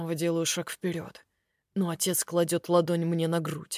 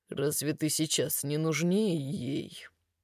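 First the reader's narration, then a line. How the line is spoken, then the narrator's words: Quiet. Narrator (Russian): говорит тихо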